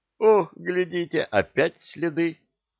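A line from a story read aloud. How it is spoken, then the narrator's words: Joyful laughter. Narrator (Russian): Шухерман радостно засмеялся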